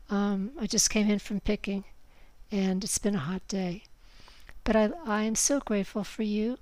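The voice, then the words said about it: Tired-sounding voice. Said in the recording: “I sound a little tired.”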